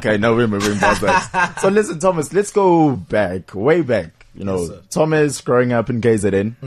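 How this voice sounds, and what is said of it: Zulu English accent. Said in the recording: “hear in your accent. You know, the Zulu English accent. ... you just got that extra little Zulu forcefulness on the English”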